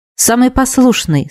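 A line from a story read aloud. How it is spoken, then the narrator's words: Plain. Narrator (Russian): сказал лорд Диес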